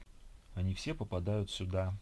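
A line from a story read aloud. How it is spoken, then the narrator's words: Sighing. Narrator (Russian): вздохнул Евгений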